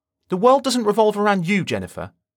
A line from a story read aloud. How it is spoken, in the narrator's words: he snapped